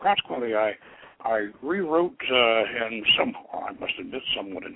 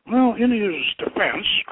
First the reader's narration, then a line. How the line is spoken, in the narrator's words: Kothor pleaded